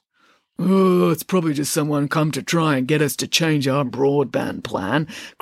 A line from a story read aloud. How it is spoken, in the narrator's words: grumbled Hades